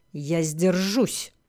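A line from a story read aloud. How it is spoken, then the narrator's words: Growling. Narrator (Russian): прорычал магистр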